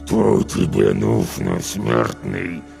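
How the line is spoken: Growl through clenched lips. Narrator (Russian): прорычал он, стараясь не разжимать губ

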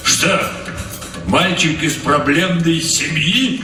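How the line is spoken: Question then sudden guffaw. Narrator (Russian): спросил он и вдруг захохотал

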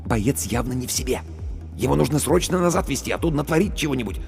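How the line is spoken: Whisper. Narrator (Russian): Командир медотделения шепнул

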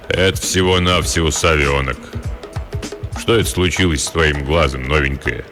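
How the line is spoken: Deep bass voice. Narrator (Russian): Пробасил

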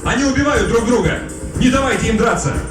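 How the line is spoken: Shouting. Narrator (Russian): Тот же голос, который напомнил о шкафе с оружием, крикнул

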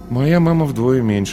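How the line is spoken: Sighing. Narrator (Russian): вздохнул Паша

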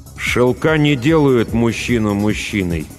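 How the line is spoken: Through gritted teeth. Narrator (Russian): и добавил сквозь зубы

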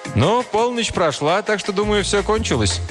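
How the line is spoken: Cheerful. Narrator (Russian): Один из них весело сказал

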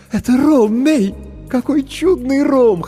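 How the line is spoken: Laughing. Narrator (Russian): хохотала Маджента

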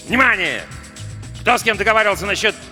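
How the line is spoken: Barked. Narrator (Russian): Жаботинский рявкнул

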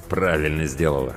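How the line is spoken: Through gritted teeth. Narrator (Russian): сквозь зубы процедил Тимур

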